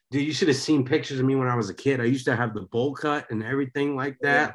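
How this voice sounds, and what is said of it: East Coast American accent. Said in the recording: “I kind of got an accent to me, right? Naturally. ... the East Coast”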